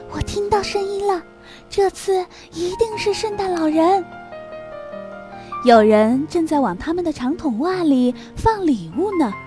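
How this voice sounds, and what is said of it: Whispering softly. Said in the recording (Chinese): “小声说”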